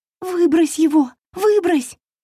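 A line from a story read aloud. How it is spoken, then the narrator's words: Fairy shouting after someone. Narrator (Russian): кричала вслед ему фея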